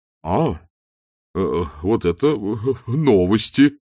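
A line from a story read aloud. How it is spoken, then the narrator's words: Uncertain. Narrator (Russian): неуверенно произнес Чудакулли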